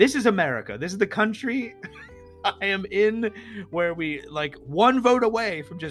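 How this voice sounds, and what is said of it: Usual voice. Nothing is said of it.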